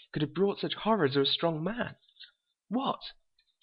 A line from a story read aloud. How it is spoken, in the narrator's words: cried